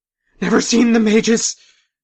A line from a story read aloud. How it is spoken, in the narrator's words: someone cried out